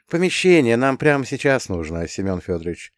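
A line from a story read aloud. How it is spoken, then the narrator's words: Gently added. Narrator (Russian): мягко добавил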